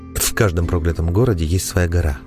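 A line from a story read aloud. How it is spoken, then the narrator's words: Heavy sigh, informative. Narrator (Russian): тяжело вздохнув, проинформировал маг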